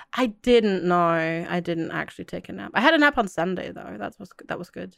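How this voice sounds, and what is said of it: Sounds like having a cold. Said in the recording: “which is why I sound as if I have a cold, because I have a sore throat”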